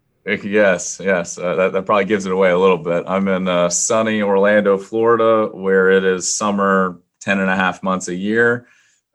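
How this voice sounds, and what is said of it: Southern American drawl. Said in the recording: “You've got a real southern drawl there.”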